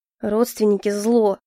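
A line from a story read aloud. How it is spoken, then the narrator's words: Grumbled. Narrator (Russian): проворчал он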